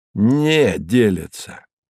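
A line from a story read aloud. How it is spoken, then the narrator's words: Angry correction. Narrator (Russian): сердито поправила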